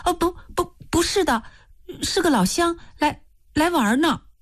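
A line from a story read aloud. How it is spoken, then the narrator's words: Hurried. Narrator (Chinese): 易清娥急忙说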